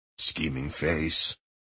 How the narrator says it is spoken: murmured Jesper

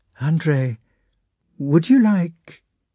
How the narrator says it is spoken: Princess Maria suddenly said in a trembling voice

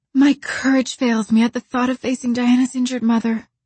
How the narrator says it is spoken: sighed Anne

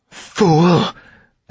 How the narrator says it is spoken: Amarantha spat

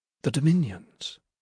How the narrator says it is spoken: Judith said, dropping her voice, which was already low, lower still

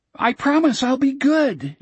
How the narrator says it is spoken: Jack shouted

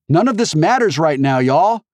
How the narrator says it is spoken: she shouted

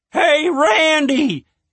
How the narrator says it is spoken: Denise shouted from up on the deck

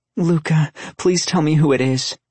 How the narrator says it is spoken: she begged

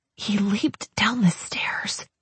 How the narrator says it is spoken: I whispered

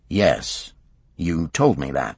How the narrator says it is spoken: Hulting said calmly

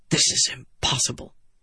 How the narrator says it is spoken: he muttered

